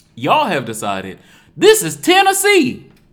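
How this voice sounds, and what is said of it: Put-on Tennessee accent. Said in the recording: “Is that a good Tennessee accent? ... It really was.”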